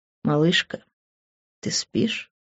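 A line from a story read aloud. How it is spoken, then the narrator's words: Soft whisper in ear. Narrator (Russian): Мягкий шепот на ухо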